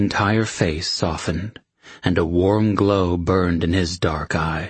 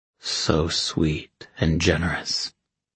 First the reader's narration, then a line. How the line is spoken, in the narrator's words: he murmured